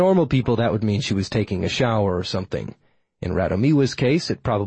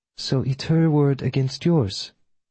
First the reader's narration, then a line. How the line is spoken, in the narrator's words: She sighed